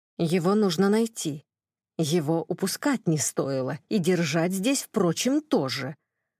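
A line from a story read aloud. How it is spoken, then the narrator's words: Angry irritated female hiss. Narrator (Russian): зло прошипел раздраженный женский голос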